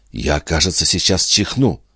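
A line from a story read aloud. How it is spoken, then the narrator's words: Whisper. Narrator (Russian): прошептала Юнона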